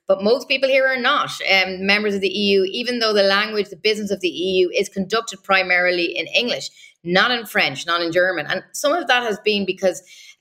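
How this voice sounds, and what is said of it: Irish accent. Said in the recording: “People may hear from my accent. I'm originally from Ireland”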